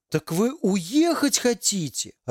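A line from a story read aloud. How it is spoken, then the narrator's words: Joyful question. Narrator (Russian): радостно спросил бородач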